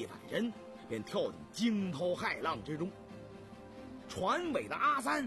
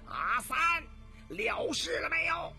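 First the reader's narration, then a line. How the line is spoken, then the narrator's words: Agitated shout while fighting. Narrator (Chinese): 黄水怪不禁心中焦躁，一边挥刀乱劈，一边高喊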